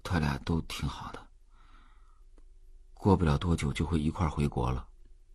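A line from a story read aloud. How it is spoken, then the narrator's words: Low voice. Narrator (Chinese): 周聪低声说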